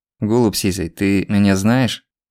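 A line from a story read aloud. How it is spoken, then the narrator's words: Even-voiced question. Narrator (Russian): ровным голосом спросил Злобин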